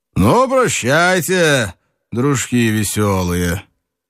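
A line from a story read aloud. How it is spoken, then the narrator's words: Loud, cheerful, drawling. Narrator (Russian): еще веселее сказал громко, развалистым голосом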